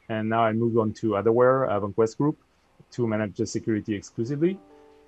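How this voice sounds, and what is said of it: Slight French accent. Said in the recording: “a little bit of French accent in the background”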